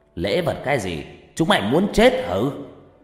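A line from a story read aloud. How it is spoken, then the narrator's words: Old man shouting. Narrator (Vietnamese): Cụ Thiên lại quát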